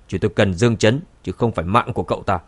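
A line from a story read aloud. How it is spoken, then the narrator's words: Cold, frowning. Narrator (Vietnamese): hai cao thủ của nhà họ Khương nhíu chặt mày, lạnh lùng nói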